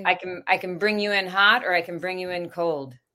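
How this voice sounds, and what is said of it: Put-on American accent. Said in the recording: “I want to hear your American accent. ... It's pretty good.”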